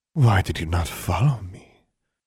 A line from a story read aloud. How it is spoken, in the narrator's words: Bewi was saying to Maximilian, in a low, throaty voice